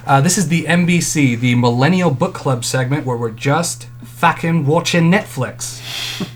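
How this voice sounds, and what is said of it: Put-on unclear accent. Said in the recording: “I don't know what accent I'm trying to go for there. ... James Cagney.”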